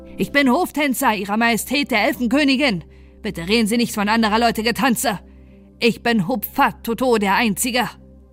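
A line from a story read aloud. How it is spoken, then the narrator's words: Angry hissing shout, tree frog. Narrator (German): Da pfauchte der Laubfrosch, wurde schwarz vor Ärger und schrie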